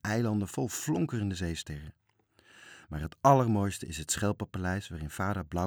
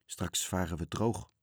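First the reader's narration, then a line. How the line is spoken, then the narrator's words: Muttering man. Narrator (Dutch): mompelde hij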